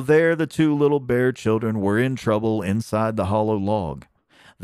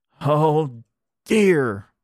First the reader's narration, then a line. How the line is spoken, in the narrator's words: cried Neddie